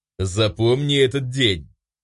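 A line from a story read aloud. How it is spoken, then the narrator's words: Hissed. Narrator (Russian): Прошипел я ему в лицо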